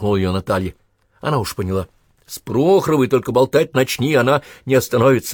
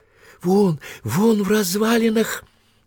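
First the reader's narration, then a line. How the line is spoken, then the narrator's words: Joyful whisper. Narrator (Russian): радостно прошептала Прохорова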